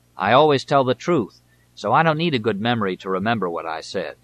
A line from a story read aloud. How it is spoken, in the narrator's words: he would growl